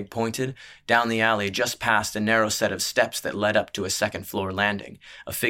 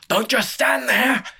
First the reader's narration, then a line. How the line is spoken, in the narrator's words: screamed